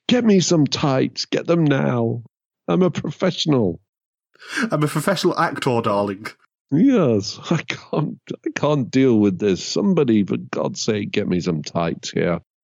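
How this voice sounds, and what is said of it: Theatrical diva actor voice. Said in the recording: “he had a full on diva fit about it”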